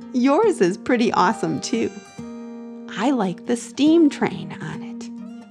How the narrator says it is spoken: Brian giggled and said

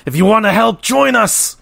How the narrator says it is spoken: One of the mages growls out

